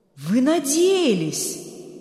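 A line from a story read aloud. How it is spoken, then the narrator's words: Stunned exclamation. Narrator (Russian): ошеломленно воскликнул Берг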